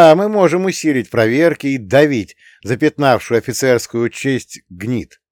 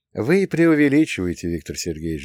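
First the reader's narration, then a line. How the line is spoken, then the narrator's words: Sigh. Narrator (Russian): вздохнул я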